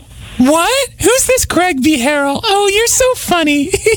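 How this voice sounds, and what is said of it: Talks in a girlish voice. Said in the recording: “Don't talk like a girl.”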